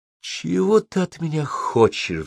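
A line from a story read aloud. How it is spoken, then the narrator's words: Sighing. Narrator (Russian): вздохнул Зенон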